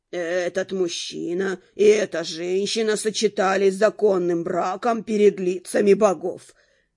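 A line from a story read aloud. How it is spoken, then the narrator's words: Solemn priestly proclamation. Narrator (Russian): торжественно провозгласил жрец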